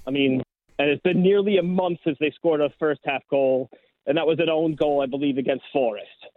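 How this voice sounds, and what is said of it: American New Jersey accent. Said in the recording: “you can hear my accent... in New Jersey”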